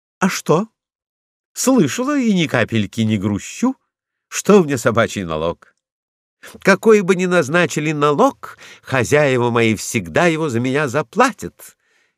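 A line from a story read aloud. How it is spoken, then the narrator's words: Cheerful reply. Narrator (Russian): весело отвечала Лайка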